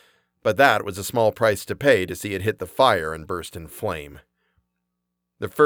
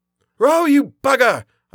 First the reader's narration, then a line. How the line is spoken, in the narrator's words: I shouted